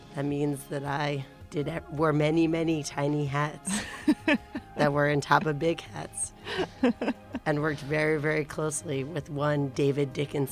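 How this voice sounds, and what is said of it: Raspy, partly lost voice. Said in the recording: “You lost your voice a little bit. ... I lost my voice. ... from yelling at shows? ... I just am so raspy to begin with that whenever I go to a show and yell over something, I just lose my voice.”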